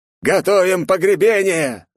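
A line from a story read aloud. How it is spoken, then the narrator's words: Yelling old man. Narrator (Russian): заорал седой дедок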